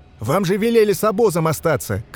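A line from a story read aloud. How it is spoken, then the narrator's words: Shouting while running. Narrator (Russian): крикнул на бегу Рух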